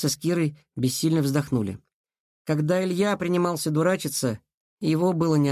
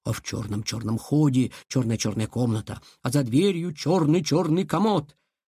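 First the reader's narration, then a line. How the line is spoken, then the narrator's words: Ominous whisper. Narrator (Russian): зловеще прошептал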